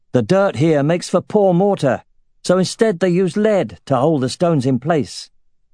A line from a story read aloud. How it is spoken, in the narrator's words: Brigman shouted